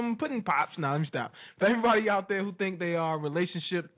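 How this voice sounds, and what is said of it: Usual voice. Nothing is said of it.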